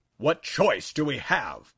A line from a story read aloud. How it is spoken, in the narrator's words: thundered